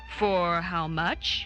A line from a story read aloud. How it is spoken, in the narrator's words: he inquired gravely